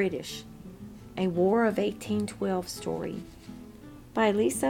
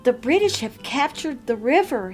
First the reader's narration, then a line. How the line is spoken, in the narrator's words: cried through the door of his father's shop